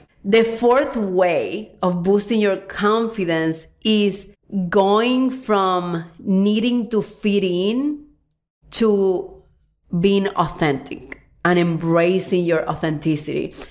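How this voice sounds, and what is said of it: Strong Hispanic accent in English. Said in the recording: “I have an accent. If you listen to this podcast, you know it. ... I'm like one of the few people here who have a strong accent. ... How other Hispanic speakers, they have less of an accent in English.”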